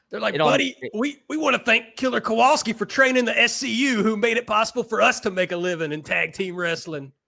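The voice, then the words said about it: Put-on regional accent. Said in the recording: “basically everybody in my family sounds exactly like that, so I'm allowed to do the accent”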